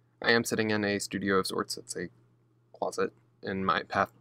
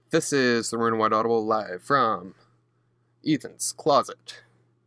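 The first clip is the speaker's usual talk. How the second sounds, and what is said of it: Exaggerated announcer voice. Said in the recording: “in my bad announcer voice”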